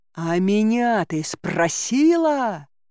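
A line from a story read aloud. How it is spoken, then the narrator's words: Ugly growl. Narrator (Russian): прорычал Кощей дурным голосом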